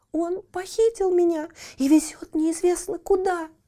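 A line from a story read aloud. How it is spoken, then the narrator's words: Girl crying out, sobbing. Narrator (Russian): вскричала девушка и зарыдала еще громче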